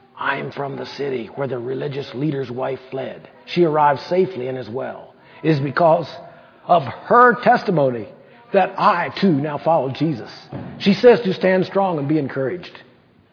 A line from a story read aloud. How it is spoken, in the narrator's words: he whispered